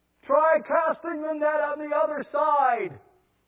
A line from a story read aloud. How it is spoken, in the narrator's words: Jesus yells back